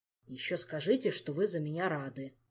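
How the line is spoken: Grumbling king. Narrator (Russian): проворчал король

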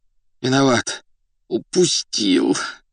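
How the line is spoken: Muffled groan. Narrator (Russian): глухо простонал он

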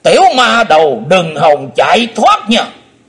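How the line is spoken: Shout. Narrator (Vietnamese): Âm ma giáo chủ quát

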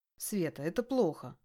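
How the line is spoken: Stern voice. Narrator (Russian): строгим голосом говорю ей я

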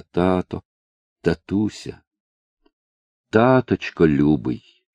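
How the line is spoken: Tender murmuring. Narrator (Russian): ласково твердила про себя

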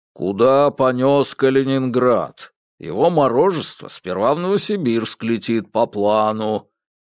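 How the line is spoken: Indignant deep bass. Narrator (Russian): низким басом возмутился Ре

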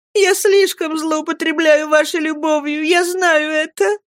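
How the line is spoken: Sobbing. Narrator (Russian): С рыданием говорила она

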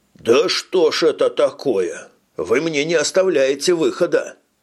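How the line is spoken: Grumbled. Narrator (Russian): пробурчал Янгверт

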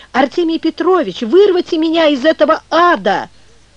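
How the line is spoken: Straining to cry out. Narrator (Russian): силилась закричать

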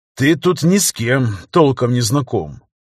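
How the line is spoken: Sighing. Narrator (Russian): вздохнул Рикельми

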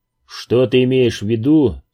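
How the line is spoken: Plain question. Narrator (Russian): спросил Оливера

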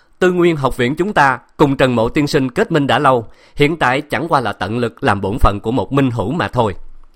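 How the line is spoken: Hearty laugh, loud bold voice. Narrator (Vietnamese): Tiêu Tư cười ha ha, hào khí đột nhiên bùng phát, cao giọng nói

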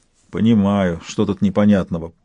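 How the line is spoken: Prisoner grumbling. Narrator (Russian): проворчал пленник

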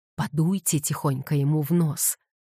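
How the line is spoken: Whisper. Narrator (Russian): прошептал Блум

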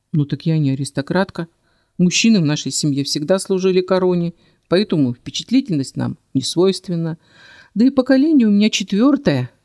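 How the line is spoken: Smirking. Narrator (Russian): хмыкнул он

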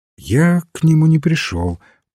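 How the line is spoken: Gentle reply. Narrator (Russian): мягко ответил священник

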